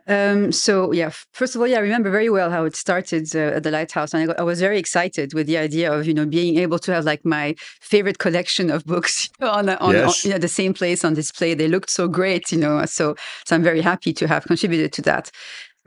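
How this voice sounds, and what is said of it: French-influenced English accent. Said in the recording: “As you can hear from my accent, I was a raised French speaker”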